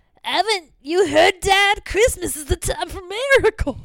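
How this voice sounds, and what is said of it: Imitates a little girl's voice. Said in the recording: “I'm going to do that voice again from earlier... Because I did quote the kid.”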